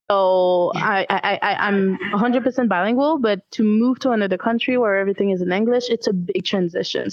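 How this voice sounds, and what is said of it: Slight Quebec French accent. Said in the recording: “I come from Quebec. It's mostly French here. Might hear it in my accent a little bit”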